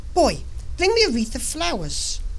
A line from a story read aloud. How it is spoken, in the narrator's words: cried to him